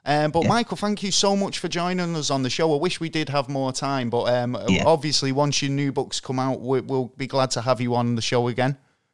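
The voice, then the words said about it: Accent from across the pond. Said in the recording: “Love your accent. ... across the pond.”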